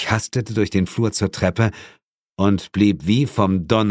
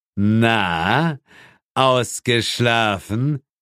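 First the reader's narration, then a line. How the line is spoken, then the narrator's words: Question with bleating laugh. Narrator (German): fragte Asmodes und lachte meckernd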